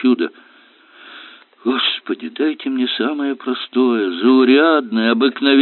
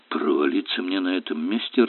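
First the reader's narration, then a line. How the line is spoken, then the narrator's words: Confused mutter. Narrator (Russian): растерянно буркнул сержант Велли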